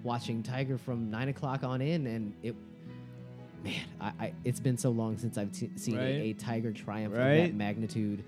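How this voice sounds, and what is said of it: Shaky, emotional serious voice. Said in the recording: “my voice is starting to shake ... I've switched to my serious voice.”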